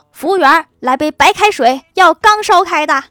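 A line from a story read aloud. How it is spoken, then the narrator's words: Girl calling out. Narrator (Chinese): 女孩喊道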